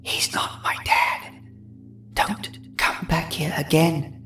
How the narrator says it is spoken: She whispered

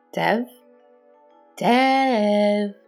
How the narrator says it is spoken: I called out tauntingly in an attempt to convince myself it was a game he was playing

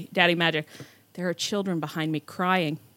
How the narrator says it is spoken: And then he said so solemnly

